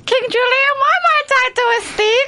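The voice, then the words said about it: Imitates King Julian cartoon voice. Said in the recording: “has got a great impression ... That was quite good ... Is it the one out of Madagascar?”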